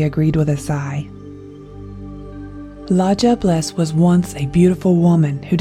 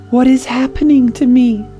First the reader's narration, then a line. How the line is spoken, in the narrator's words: the woman cried